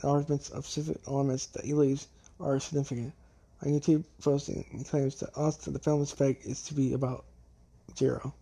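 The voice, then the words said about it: Hoarse, failing voice. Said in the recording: “It's my mouth. My voice. I'm losing my voice.”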